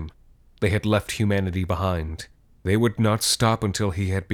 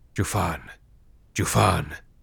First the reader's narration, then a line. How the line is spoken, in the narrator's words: murmured